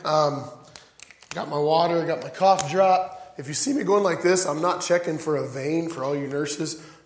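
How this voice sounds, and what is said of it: Fading, strained voice. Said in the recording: “my voice is kind of disappearing”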